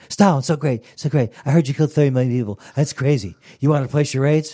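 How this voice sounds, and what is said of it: Imitates another person's voice. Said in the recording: “my impression of Jimmy Fallon interviewing Stalin”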